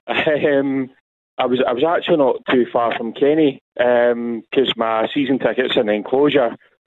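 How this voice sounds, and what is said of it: Slightly hoarse voice. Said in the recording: “my voice, I don't know if you can hear me, but a bit hoarse.”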